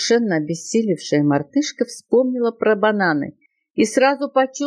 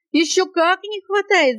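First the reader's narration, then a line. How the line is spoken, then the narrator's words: Shout. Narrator (Russian): закричала она, вскакивая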